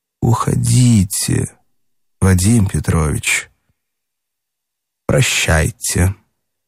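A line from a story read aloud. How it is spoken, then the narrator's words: Very quiet. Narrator (Russian): Наконец Катя проговорила совсем тихо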